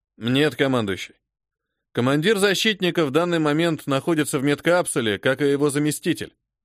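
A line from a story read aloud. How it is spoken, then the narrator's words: Plain. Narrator (Russian): ответил Владимир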